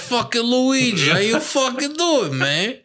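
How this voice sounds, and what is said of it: Thick put-on Italian-American accent. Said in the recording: “It was a pretty thick accent. ... Tony Soprano.”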